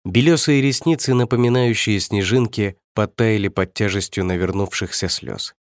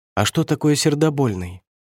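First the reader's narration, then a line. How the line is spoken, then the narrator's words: Timid wary question. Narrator (Russian): Я робко опасаясь очередного подвоха спросил у дедушки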